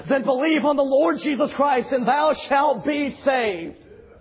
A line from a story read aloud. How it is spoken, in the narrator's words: John Harper yelled back